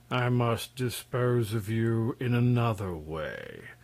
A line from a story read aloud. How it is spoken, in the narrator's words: said Terribus, regarding the prince gloomily